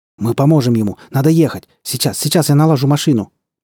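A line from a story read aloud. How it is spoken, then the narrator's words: Rapid chatter. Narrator (Russian): быстро затараторил он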